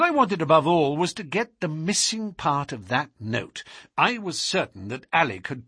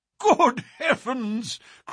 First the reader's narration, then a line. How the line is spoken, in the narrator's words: cried the Colonel, laughing